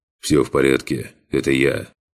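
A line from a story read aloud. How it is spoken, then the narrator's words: Quiet, calm. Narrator (Russian): тихо сказал капитан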